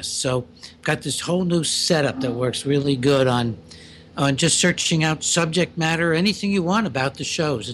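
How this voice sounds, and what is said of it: Strained, raised speaking voice. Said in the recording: “my voice is a little strained, it's because I'm raising it”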